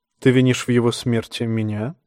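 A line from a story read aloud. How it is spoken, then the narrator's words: Soft question. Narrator (Russian): мягко спросил Эурон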